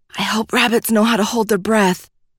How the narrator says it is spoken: she whispered to the little creature

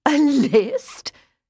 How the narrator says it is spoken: his older sister Caroline was saying, practically hooting between words, she was laughing so hard

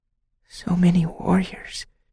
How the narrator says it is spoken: whispered

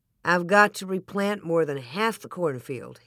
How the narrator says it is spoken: he said

